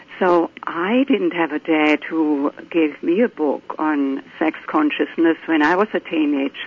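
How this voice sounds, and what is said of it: German accent. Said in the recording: “as you can tell from my accent, I grew up in Germany”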